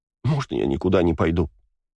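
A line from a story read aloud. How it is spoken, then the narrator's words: Sobbing. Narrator (Russian): всхлипнула Кристина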